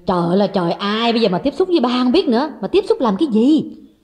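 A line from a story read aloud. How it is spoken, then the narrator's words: Snapped irritably. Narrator (Vietnamese): Người con gái gắt lên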